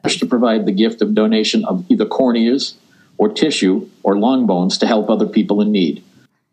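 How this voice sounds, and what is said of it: Boston accent. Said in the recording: “I know I can be hard to understand with my accent. I'm from Boston”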